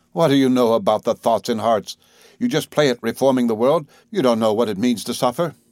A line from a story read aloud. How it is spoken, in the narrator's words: Vida cried with contorted face